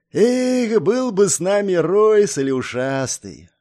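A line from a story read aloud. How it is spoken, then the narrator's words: Dreamy drawl. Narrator (Russian): Мечтательно протянул Щуплый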